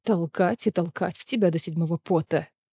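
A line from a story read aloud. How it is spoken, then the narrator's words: Growled. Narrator (Russian): Прорычал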